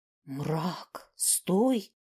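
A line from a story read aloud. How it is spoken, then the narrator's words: Helpless hiss. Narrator (Russian): беспомощно прошипел Тьон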